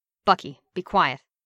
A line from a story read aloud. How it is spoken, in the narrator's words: Steve said sharply